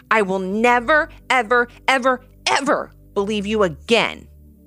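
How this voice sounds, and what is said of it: Angry voice. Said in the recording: “Ivy said in an angry voice.”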